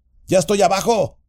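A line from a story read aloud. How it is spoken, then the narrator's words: Shout. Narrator (Spanish): Sam le gritó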